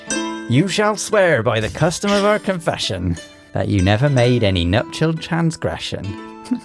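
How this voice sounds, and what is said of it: Put-on West Country accent. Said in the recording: “Which accent would you like? ... I want West Country, please.”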